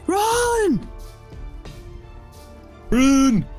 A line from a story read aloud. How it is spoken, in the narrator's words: I'm just gonna yell